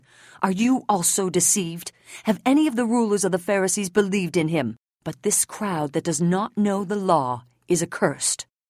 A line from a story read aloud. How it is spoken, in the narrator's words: Now enraged, they cried